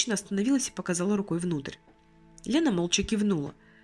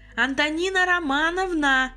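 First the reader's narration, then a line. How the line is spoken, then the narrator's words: Calling out. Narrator (Russian): крикнула куда-то вглубь заведующая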